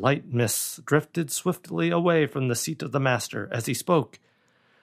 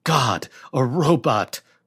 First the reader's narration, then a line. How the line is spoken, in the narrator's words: cried David